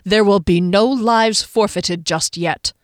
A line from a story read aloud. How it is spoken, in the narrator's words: he growled